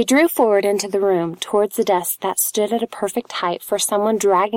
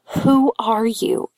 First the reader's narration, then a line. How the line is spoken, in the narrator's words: she gasped